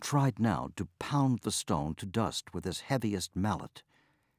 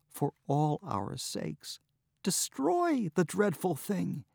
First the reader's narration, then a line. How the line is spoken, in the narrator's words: pleaded